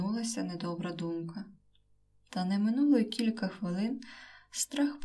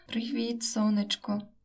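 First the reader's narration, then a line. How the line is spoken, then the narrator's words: Tender exclamation. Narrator (Ukrainian): вигукнув ніжно Михайло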